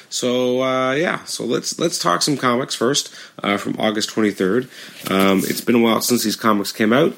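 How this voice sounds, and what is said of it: Scratchy, hoarse voice. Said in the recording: “I've also lost my voice. So my voice is extra scratchy, hard to talk”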